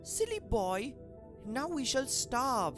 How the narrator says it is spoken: She exclaimed

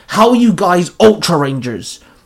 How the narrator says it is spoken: Wes barked at them

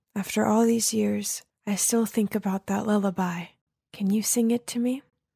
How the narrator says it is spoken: softly said

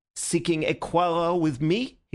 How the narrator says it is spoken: he cried

